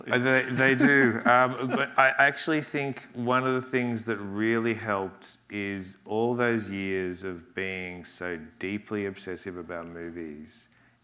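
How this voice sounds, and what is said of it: Australian accent. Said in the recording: “accent? I mean, is this Australian accent?”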